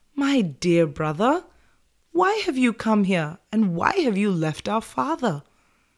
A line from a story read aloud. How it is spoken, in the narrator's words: Prince Ram kindly said